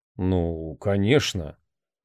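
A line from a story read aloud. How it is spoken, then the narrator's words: Stunned mutter. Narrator (Russian): ошеломленно пробормотал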